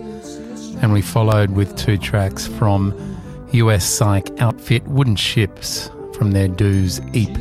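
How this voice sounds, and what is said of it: Husky, low voice. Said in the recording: “got my husky, sexy voice on again tonight”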